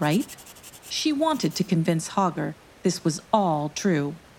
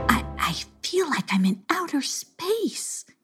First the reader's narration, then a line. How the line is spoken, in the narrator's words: Gossipina gasped to herself